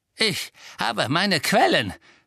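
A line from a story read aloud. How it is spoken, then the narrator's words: Smug hiss. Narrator (German): zischelte Filch selbstgefällig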